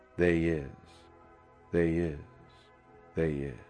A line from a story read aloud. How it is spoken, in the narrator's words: the boy in right field to smack his sweat-blackened mitt and softly chant